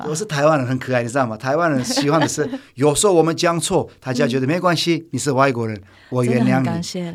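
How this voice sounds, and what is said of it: Mandarin with a foreign accent. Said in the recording (Chinese): “但是我的国语还是有外国人的口音”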